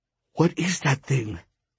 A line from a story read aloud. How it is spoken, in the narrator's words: whispered